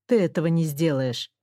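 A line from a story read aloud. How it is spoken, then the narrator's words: Calm. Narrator (Russian): сказал спокойно он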